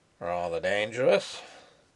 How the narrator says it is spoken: muttered the constable of Zender

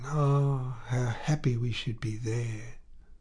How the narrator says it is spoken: she ended by murmuring

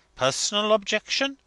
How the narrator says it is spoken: he exclaimed

